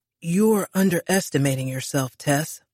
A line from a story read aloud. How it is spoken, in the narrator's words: Ryan murmured